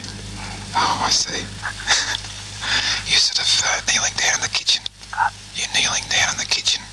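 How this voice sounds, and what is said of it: Whispering. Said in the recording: “What am I whispering for?”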